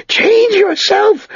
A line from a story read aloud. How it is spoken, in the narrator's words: Sered screamed at him